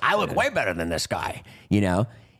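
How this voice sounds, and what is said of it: Impression of Dave Portnoy. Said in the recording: “it's a good impression”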